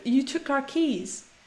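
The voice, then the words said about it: Attempted New Zealand accent. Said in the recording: “I'm trying to do a New Zealand accent. ... Taika Waititi accent”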